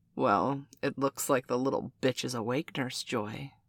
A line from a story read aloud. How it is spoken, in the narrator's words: Miss Robert observed coldly